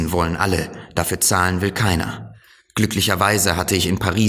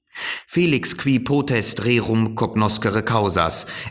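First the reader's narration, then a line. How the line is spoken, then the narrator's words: Sighing reply. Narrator (German): entgegnete er seufzend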